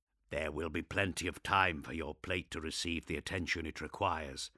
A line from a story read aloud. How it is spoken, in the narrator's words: Asmodai said, his voice a gravelly whisper